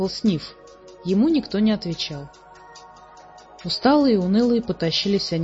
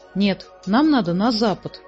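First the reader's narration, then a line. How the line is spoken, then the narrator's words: Plain. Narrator (Russian): сказал Мумитроль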